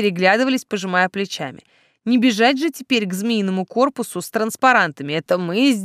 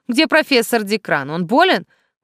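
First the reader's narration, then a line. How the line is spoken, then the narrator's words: Agitated question. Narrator (Russian): взволнованно спросила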